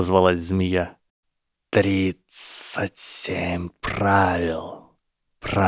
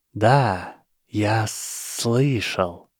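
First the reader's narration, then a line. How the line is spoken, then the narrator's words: Hiss. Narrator (Russian): прошипел Гарри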